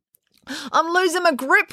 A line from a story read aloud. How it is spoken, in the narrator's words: wailed Finn